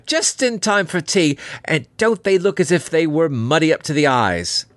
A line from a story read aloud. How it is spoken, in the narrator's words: she cried